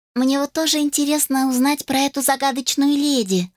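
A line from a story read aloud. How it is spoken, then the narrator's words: Thin mousy squeak. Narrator (Russian): тонким голоском, словно пропищала мышь, произнесла Элла Липс, помощница кухарки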